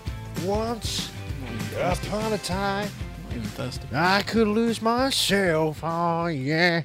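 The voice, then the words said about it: Imitates a rock singer's voice. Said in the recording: “my impression of Eddie Vedder”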